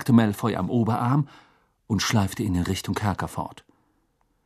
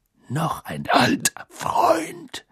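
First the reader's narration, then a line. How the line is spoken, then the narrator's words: Growled. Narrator (German): knurrte Moody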